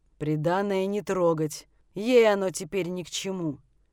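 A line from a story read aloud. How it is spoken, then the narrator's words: Deep booming voice. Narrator (Russian): Пробасил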